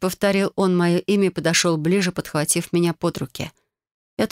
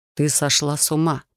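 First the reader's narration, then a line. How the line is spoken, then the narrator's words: Muttered. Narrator (Russian): пробормотал Рион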